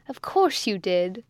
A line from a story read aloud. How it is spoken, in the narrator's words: cried Osborne, still on the laugh